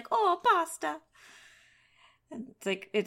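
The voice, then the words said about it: Put-on Italian accent. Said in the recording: “that sounds like a pretty solid Italian accent”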